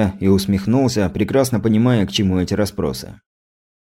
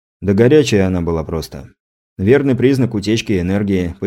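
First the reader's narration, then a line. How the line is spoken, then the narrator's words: Explaining, then sighing. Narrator (Russian): пояснил я и вздохнул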